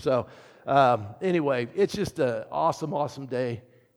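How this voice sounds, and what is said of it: Slightly hoarse voice. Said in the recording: “I sang as much as you, Nathan. Now I got to try to talk, and I'm getting a little hoarse here.”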